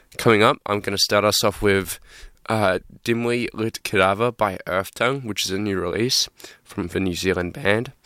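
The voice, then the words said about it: Sick, strained voice. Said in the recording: “I'm just feeling a bit sick this week ... my voice isn't totally here, so I'm honestly kind of straining not to cough right now”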